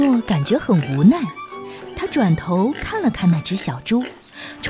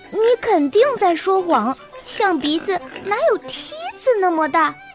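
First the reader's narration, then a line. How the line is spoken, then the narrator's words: Laughing in disbelief. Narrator (Chinese): 奥利和比亚笑个不停，他们根本不相信加尼诺的话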